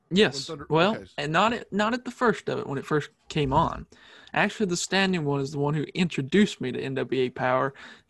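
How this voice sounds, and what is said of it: Slight Southern US accent. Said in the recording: “not saying that you're Southern, there's a slight accent there ... I am Southern”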